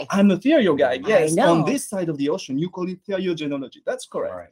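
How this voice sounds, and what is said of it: French accent. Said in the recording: “I'm a French veterinarian... I'm sure you can hear by my accent. It's very hard to hide this one, actually.”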